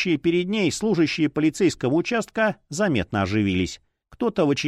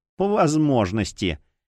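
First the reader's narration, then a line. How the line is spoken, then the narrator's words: Sly, mocking. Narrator (Russian): ехидно улыбнулась Ринч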